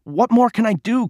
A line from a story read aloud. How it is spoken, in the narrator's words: pleaded